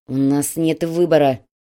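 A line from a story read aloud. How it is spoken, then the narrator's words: Through gritted teeth. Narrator (Russian): процедил инструктор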